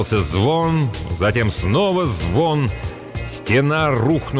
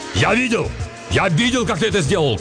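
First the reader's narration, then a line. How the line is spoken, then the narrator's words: Shouting. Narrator (Russian): кричал он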